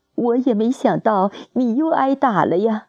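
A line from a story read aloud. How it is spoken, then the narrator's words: Crying, nagging. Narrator (Chinese): 姐一边哭一边给我擦，还唠叨着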